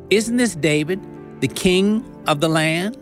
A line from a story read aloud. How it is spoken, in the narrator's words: they asked